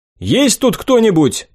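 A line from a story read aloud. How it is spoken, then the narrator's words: Shouted in Goblin. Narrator (Russian): крикнул я на гоблинском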